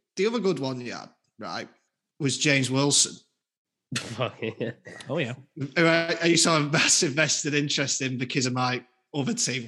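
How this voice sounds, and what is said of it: Speaks with a noticeable regional accent. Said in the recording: “probably will tell by the accent”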